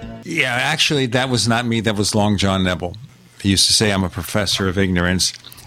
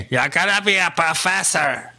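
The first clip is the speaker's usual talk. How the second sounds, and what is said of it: Imitates another person's voice. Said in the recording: “Very bad imitation.”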